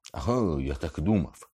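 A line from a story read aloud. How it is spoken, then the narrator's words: Exclaimed. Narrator (Ukrainian): вигукнув Локарт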